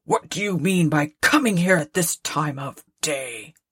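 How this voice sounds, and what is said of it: Gruff growling character voice. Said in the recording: “growled Scrooge in his accustomed voice, as near as he could feign it”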